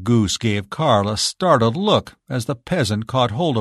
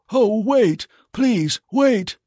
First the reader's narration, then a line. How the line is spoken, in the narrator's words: cried Carl, as all his courage fled from him